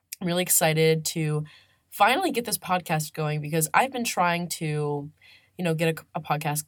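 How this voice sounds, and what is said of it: Congested, strained voice. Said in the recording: “my voice is like, I'm kind of getting over a small sinus infection right now... it's also due to a lot of screaming”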